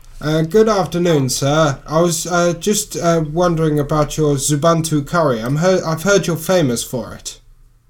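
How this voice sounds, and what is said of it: Put-on accent. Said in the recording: “I might have to affect an accent.”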